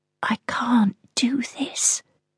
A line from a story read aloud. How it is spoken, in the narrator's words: a voice in my head whispers